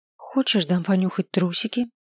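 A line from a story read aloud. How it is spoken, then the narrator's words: Heartfelt tone. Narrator (Russian): Спросил я его столь же проникновенным тоном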